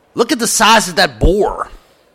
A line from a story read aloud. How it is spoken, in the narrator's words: a woman shouted